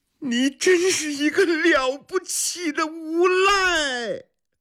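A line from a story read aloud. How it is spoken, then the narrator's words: Bitter laugh, hysterical crying. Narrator (Chinese): 海棠苦笑着，发出歇斯底里的哭喊声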